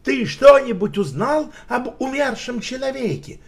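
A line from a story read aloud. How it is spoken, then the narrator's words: Shouted. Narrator (Russian): крикнул Шерлок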